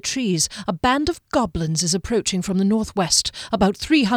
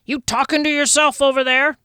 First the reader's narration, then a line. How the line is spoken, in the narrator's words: Janik hollered